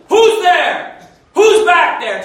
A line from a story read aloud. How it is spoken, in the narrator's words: Just yelling